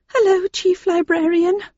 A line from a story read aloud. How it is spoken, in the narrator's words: she said nervously